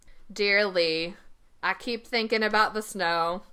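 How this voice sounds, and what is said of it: Attempted Texas accent. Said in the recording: “I tried to do a Texas accent, I stopped after one sentence.”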